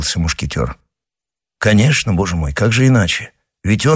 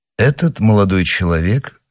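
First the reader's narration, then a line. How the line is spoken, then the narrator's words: Calm reply. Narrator (Russian): спокойно ответил Атос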